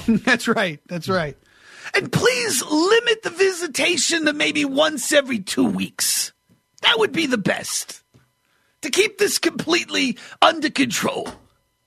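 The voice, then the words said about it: Dr. Fauci impression. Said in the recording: “I don't even know if that's a good impression of him, but I just like doing that voice ... that's just going to be my, my, Dr. Fauci voice. I don't even know if it's on point”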